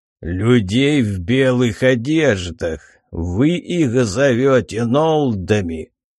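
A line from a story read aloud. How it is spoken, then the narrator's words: Growling. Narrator (Russian): прорычал Драко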